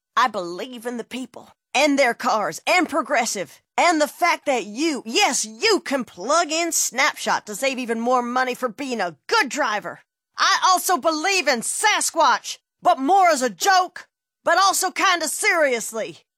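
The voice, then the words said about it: Impression of a politician. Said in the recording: “my impression of a politician”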